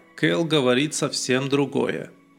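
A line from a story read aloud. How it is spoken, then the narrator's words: Even-voiced reply. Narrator (Russian): ровным голосом ответил Дипна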